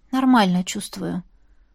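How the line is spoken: Mumbled. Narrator (Russian): пробормотала

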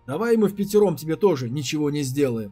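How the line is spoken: Yelling. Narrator (Russian): заорал Пяо

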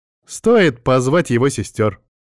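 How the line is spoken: Ringing young female voice. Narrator (Russian): отозвалась девушка со звонким голосом

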